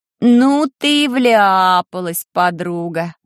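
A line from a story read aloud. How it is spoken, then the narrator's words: Surprised drawl. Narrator (Russian): Удивленно протянула уже окончательно протрезвевшая Вики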